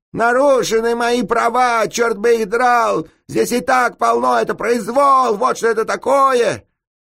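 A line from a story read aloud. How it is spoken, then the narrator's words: Yelling. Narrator (Russian): вопил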